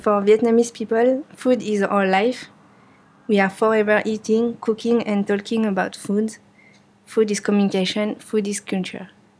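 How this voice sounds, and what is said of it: Speaks English with a foreign accent. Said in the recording (French): “désolé pour mon accent”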